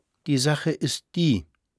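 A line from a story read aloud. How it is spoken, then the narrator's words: Hesitant answer. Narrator (German): antwortete Frau Permaneder zögernd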